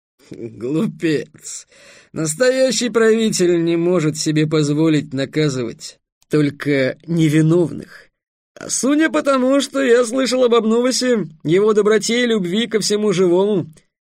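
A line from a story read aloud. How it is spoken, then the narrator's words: Laughing. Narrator (Russian): Витамант рассмеялся и сказал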